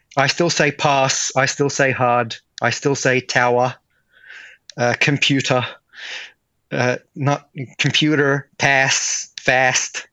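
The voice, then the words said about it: Subtle, internationalized Australian accent. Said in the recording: “a slightly internationalized version of an Aussie accent ... Aussie enough, but only subtly Aussie”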